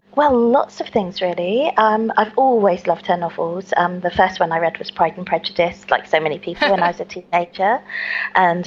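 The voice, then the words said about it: Southern English accent. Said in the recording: “right off we're going to notice your accent ... in the south of England”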